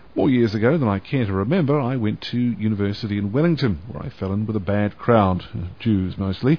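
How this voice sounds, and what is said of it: New Zealand accent. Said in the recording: “New Zealand, land of my birth, islands of my people, and the place where I acquired this accent, which I am reliably assured by several American women is, and I quote, cute.”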